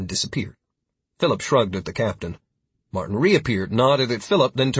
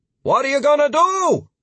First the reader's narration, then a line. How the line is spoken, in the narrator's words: The captain, standing at the stern of his ship as it pulled away, shouted